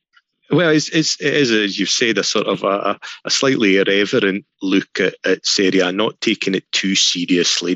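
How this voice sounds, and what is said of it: Scottish accent. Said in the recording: “his Scottish accent”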